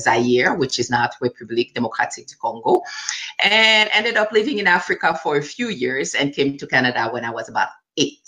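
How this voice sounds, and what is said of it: French and Creole accented English. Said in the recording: “you have an accent ... That's so because I speak French. I speak French and I speak Creole.”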